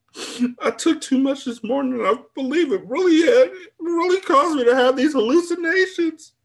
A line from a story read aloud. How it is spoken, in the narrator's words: I exclaimed